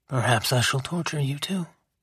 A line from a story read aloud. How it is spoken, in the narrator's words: he whispered